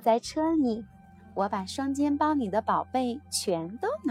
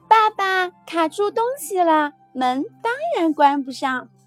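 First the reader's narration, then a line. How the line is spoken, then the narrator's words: Laughing shout. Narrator (Chinese): 我笑着喊起来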